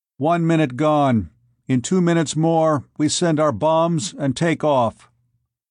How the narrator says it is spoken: said evenly

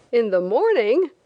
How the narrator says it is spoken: the captain exclaimed with a laugh

